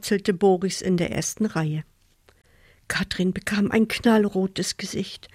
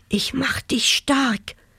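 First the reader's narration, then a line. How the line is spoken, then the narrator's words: Whispered. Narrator (German): flüsterte er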